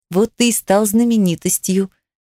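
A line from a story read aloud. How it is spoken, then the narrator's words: Soft giggling voice. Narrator (Russian): Я тихонечко произношу и хихикаю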